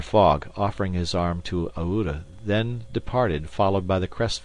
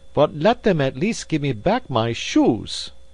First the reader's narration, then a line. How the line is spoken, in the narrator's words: cried Passepartout angrily